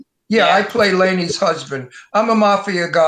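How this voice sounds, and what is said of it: Usual voice. Nothing is said of it.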